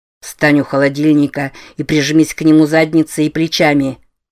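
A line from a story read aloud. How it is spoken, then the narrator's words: Plain. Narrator (Russian): сказал он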